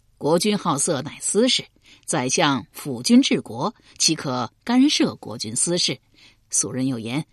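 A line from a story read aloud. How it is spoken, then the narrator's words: Cheerful, grinning. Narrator (Chinese): 管仲笑嘻嘻回道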